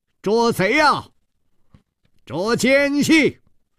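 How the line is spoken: Loud shouting. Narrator (Chinese): 大声地呼喊道

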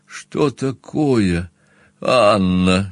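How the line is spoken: Breathed out. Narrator (Russian): выдохнул я

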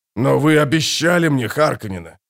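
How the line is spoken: Furious hiss, old man. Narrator (Russian): прошипел Гурни, и Пауль увидел бешенство в глазах старика

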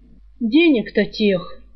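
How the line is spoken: Hinting sigh. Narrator (Russian): с намеком вздохнул Жар

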